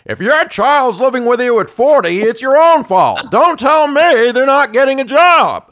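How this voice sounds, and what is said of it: Impression of Larry's voice. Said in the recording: “I can impersonate Larry saying ... You did a pretty good job imitating me.”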